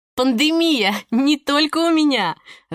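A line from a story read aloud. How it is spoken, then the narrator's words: Laughing. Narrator (Russian): рассмеялась Ника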